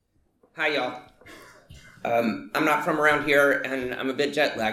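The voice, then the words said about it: Soft Southern American accent. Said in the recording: “the soft southern accent”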